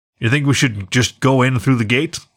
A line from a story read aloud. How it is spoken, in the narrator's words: asked Roy